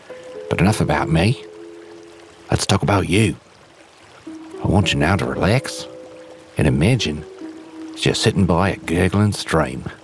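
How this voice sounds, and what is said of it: Put-on Australian accent. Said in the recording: “I'm ... but with an Australian accent. Yep, I learned this accent by watching movies with what I assume were Australian people in them.”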